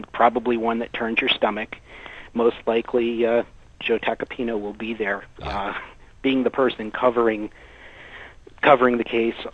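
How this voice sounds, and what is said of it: Slightly congested voice from cold. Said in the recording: “I have a little bit of a cold”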